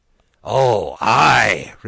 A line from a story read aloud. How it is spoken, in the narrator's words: replied the guests, in the hearty tones natural when the words demanded by politeness coincide with those of deepest feeling